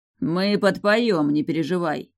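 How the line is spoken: Chuckling. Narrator (Russian): хохотнул Гром, вернувший человеческий облик

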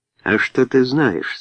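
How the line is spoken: Soft voice. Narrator (Russian): спросил Тони своим мягким голосом

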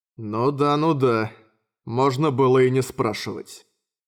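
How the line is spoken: Sighing grumble. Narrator (Russian): вздыхая, проворчал Йосихико

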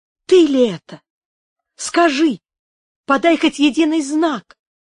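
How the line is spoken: Exclamation. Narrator (Russian): воскликнула она

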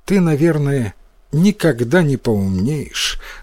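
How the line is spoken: Sad mother. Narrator (Russian): грустно сказала мать

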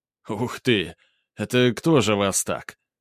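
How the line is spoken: Involuntary chuckle. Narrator (Russian): не удержавшись, хохотнул Грубер

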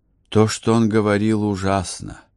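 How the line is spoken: Sighing. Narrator (Russian): вздохнула Элеонора

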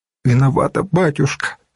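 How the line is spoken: Tearful, sobbing. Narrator (Russian): сказала Данка и всхлипнула

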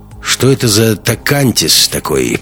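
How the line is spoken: Grumbling. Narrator (Russian): продолжал ворчать он

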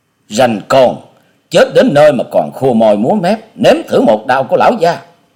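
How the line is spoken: Hot-tempered bellow. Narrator (Vietnamese): Gã đại hán được gọi là Lão Tam kia có vẻ nóng nhất ở trong bọn, quát

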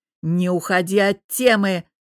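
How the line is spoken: Roar. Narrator (Russian): взревел Богдан

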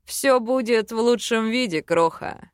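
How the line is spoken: Chuckle. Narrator (Russian): хохотнул Вел

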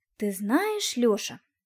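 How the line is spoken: Thoughtful. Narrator (Russian): задумчиво произнесла я

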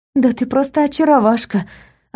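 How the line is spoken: Relieved exhale. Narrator (Russian): облегченно выдохнула я, радуясь, что общаюсь со своей шизофренией, а не со своим женихом

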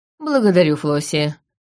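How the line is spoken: Sighing. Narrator (Russian): вздохнул Гарриш

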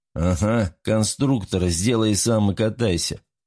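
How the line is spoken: Chuckling. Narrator (Russian): хохотнул Алмаз

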